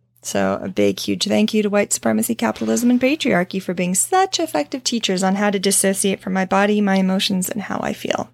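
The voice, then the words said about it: Sarcastic delivery. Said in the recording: “That was sarcasm,”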